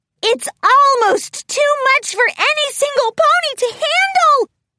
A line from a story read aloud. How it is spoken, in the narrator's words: Pinkie squealed